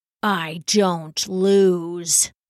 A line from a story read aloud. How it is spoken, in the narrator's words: the monk growled